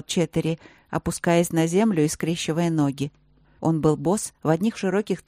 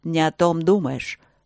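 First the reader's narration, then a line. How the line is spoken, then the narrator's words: Dragon's growl. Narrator (Russian): рыкнул дракон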